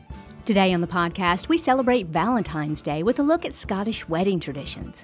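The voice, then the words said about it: Congested voice with a head cold. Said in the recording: “I have a bit of a head cold today, so please excuse me if my voice sounds a bit off”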